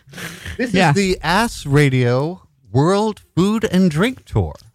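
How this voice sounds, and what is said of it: Put-on radio announcer voice. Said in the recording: “Your radio voice when you do that is so funny... like it's not at all your regular voice.”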